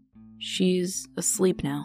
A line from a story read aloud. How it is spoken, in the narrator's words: Seb mumbled